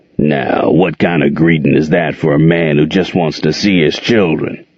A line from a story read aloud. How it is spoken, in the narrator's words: he asked in that gravelly voice that Gerald hated